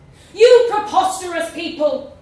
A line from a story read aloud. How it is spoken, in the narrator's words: the protester shouted back